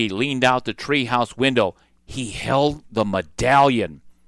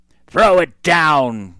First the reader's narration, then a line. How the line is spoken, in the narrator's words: cried Cap'n Bones